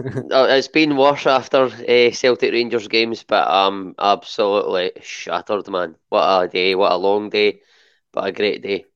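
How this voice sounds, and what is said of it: Slightly hoarse voice. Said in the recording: “My voice is just about holding up ... I am slightly hoarse”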